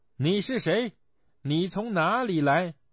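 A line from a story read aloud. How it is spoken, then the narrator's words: Shouting. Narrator (Chinese): 孙悟空 他对妖怪喊道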